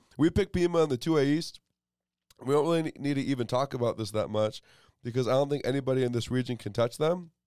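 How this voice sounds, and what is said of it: Sick, slightly weird-sounding voice. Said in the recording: “Sorry, y'all, I'm sick... I've been highly medicated. So my voice sounds a little bit weird.”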